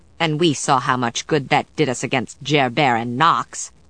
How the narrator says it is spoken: Sarah said bitterly

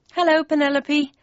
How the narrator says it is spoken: I said nervously

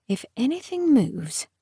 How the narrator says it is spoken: Harrow muttered

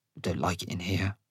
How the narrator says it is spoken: mutter

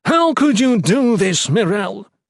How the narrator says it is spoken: he yelled

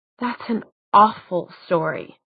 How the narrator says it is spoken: she said indignantly

